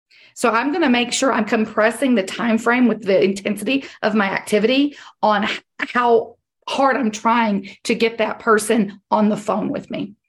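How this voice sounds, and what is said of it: Hoarse, strained voice. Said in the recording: “I'm sorry for losing my voice.”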